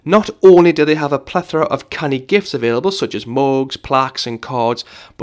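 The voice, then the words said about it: Geordie accent. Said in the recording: “my accent is a bit of a giveaway as to where I'm from ... a good Geordie accent”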